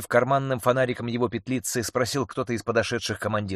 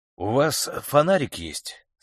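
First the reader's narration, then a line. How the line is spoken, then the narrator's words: Calm inquiry. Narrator (Russian): спокойно осведомился Алексей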